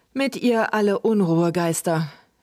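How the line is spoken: Hesitant, uneasy repeating. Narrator (German): wiederholten Luke und Trug etwas zögernd, denn der Spuk dieser Kerlchen war ihnen nicht besonders geheuer

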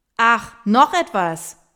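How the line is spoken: Shouting after someone. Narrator (German): brüllt Hendrik Miriam hinterher

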